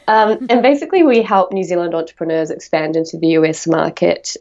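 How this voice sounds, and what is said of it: New Zealand accent. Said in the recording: “We're a not-for-profit from New Zealand. That's why I have a weird accent.”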